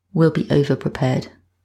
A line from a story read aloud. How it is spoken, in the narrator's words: Joe said in a flat tone